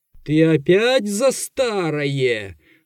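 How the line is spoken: Menacing sorcerer interrupting. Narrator (Russian): грозно прервал колдун

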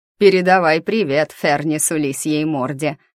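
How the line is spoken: Snort. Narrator (Russian): хмыкнул хозяин

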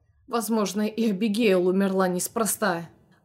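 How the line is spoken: Hateful hiss through teeth. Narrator (Russian): процедил Нэш, вскинув горящие ненавистью глаза

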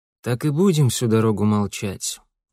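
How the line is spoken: Tired father asking. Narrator (Russian): устало спросил отец

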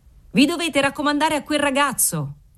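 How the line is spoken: Cheerful shout. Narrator (Italian): urlò allegramente il garzone del cantiniere

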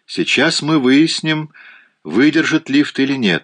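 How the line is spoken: Cheerful. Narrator (Russian): весело сказал Донован

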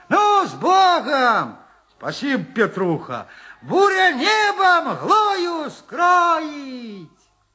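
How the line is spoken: Shouting. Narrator (Russian): Прокричал Петруха

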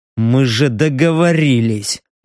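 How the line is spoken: Grumble. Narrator (Russian): буркнул Стриж

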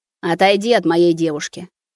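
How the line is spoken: Menacing demand. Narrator (Russian): грозно требует он

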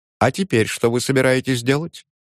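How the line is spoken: Tense joking, mimicking son. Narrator (Russian): Тем же напряженно-шутливым голосом, подражая манере сына говорить

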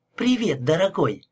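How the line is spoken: Exclaimed. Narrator (Russian): воскликнула Мэгги

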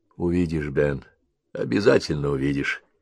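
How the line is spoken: Soft. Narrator (Russian): мягко проговорил

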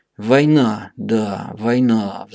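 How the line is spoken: Sighing penguin. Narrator (Russian): вздохнул пингвин

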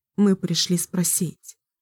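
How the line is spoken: Quiet, hesitant words. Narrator (Russian): наконец тихо произнесла

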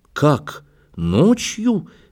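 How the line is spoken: Exclaimed. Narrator (Russian): воскликнул Кипренский

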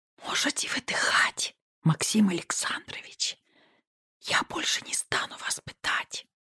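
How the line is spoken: Intimate whisper. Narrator (Russian): прошептала я ему в губы

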